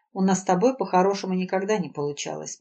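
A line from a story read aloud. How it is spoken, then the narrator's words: Calm. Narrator (Russian): спокойно ответил Валерий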